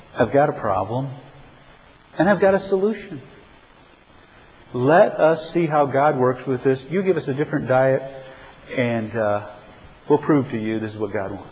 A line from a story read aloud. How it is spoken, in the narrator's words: calmly and quietly to his supervisor and said